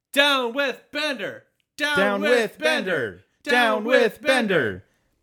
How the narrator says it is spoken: they form a mob yelling

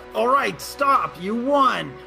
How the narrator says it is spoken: she yells

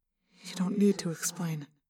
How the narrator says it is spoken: I said softly

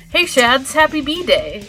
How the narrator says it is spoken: Sonic said cheerfully

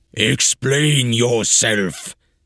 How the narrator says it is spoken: the astonished giant thundered

